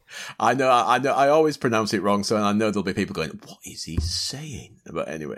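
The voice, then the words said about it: Yorkshire accent. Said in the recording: “I blame my Yorkshire ... Yorkshire ... accent.”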